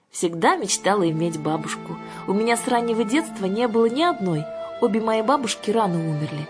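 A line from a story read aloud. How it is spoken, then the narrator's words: Sad. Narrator (Russian): печально сказала Александра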